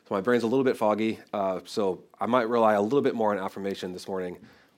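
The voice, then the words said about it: Voice affected by a cold. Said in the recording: “I'm just getting over a cold, if you can't tell in my voice.”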